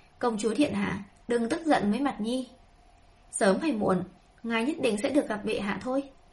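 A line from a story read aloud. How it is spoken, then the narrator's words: Smiling. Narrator (Vietnamese): Tây Lương Mạt mỉm cười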